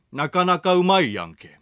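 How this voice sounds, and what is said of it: Put-on Kansai dialect. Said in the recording (Japanese): “関西弁で”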